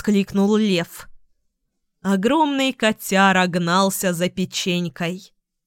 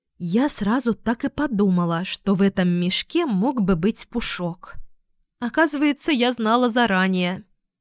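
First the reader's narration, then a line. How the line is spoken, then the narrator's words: Quiet. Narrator (Russian): тихо сказала Луна Алисе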